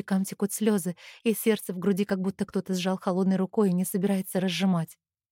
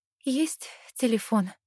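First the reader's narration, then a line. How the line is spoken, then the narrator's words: Trembling voice question. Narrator (Russian): спрашиваю дрожащим голосом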